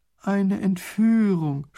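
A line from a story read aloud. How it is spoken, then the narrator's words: Groan. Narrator (German): stöhnt Raffini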